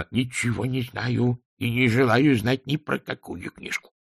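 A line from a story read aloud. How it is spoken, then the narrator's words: Grumbled. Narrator (Russian): проворчал Шнобби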